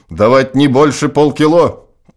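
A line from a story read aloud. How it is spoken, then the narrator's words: Angry objection. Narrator (Russian): Флешгакер возражает зло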